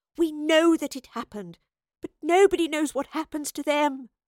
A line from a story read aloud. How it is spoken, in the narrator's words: she pleaded